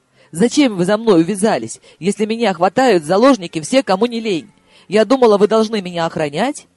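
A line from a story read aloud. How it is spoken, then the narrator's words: Barked. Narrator (Russian): рявкнул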